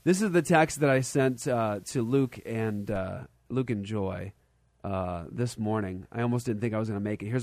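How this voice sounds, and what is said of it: Congested, sniffly voice. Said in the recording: “If I sound a little weird today ... He's got sniffles ... it's because I'm sick ... It's my nose.”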